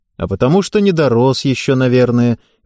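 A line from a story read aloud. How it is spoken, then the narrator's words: Cheerful reply. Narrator (Russian): весело ответил Борис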